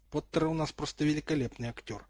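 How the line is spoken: Spoken through clenched teeth. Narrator (Russian): процедил сквозь зубы Драко

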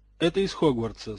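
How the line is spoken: Dry remark. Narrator (Russian): сухо заметил Зельевар

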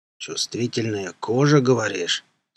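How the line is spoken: Menacing question. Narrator (Russian): спросил вдруг караул нехорошим голосом

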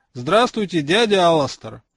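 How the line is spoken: Loud. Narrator (Russian): громко произнес он

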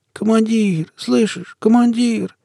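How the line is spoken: Hoarse wheeze. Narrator (Russian): просипел я

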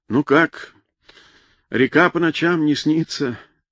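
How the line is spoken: Deep sigh. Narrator (Russian): глубоко вздохнул

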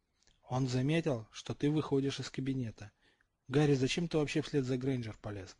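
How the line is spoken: Whispered question. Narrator (Russian): Шепотом спросил Рональд

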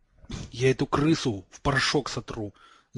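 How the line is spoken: Angry girl hissing. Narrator (Russian): сжимая кулачки, шипела девочка

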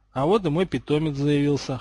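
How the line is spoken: Amused snort. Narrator (Russian): хмыкнул Гарри

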